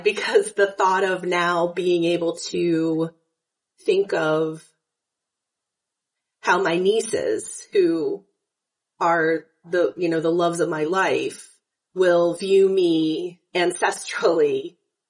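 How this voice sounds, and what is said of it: Slightly tearful, emotional voice. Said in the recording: “I'm a little teary-eyed”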